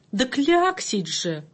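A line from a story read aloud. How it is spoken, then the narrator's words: Exclaiming. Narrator (Russian): воскликнула буква А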